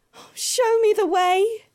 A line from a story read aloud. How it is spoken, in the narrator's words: sobbed